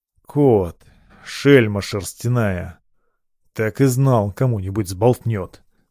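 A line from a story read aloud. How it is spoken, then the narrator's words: Surprised grumble. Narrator (Russian): проворчал, поборов первое удивление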